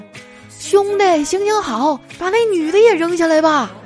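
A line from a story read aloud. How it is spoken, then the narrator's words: Ecstatic tearful beggar shouting upward. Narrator (Chinese): 这乞丐狂喜啊，于是擦着眼泪啊，对楼上喊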